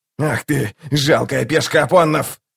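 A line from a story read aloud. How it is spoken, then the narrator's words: Growling. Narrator (Russian): зарычал Локон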